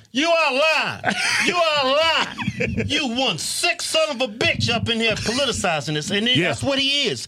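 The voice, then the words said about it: Put-on Southern drawl. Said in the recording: “I like his accent, man. ... Southern drawl.”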